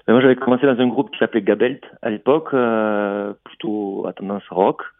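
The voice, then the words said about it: Slight southwestern French accent. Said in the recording (French): “ce petit accent que j'entends, il fait plutôt gersois que Toulousain”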